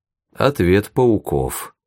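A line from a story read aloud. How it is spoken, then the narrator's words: Calm. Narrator (Russian): спокойно сказал Ивашура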